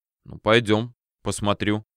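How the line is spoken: Grumbling mutter. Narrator (Russian): буркнул

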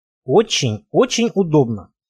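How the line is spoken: Quiet, in Russian. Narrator (Russian): тихо сказал по-русски предводитель троицы

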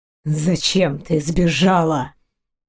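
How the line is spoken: Growled. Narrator (Russian): Прорычал мужчина

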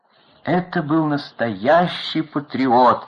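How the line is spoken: Tearful old woman exclaiming. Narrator (Russian): со слезами на глазах воскликнула старушка-аккомпаниаторша

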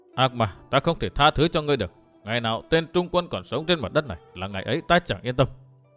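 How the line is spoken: Muttering. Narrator (Vietnamese): Dương Viễn nói lẩm bẩm

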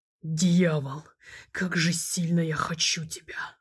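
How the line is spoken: Hoarse growl in ear. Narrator (Russian): хрипло прорычал он ей на ухо

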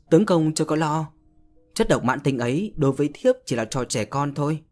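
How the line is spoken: Happy slow speech. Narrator (Vietnamese): Tiểu Tinh hài lòng, mỉm cười sung sướng và chậm rãi nói

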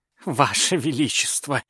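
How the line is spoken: Pleading. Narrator (Russian): взмолился Прохиндей

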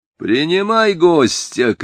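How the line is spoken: Shout drowned by barking. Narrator (Russian): крикнул Шамиль, яростный лай собаки перекрывал его голос

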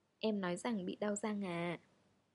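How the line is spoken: Calmer voice. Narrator (Vietnamese): cô cất tiếng với giọng bình tĩnh hơn

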